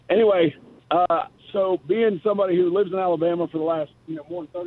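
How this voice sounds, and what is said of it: Hoarse, rough, strained voice. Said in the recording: “I apologize for my voice. I sound like I gargled with a chainsaw. I was at the championship game there yesterday in Nashville ... you sound like Nate Oates”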